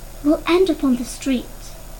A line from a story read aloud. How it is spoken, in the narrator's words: Tejas said, in a voice that was scarcely more than a whisper